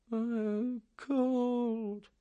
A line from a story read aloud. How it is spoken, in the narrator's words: Snowden moaned with half-closed eyes